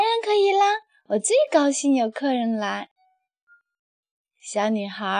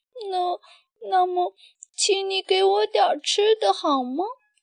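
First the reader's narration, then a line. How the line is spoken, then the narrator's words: Quiet, timid. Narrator (Chinese): 阿奇低着头，小声说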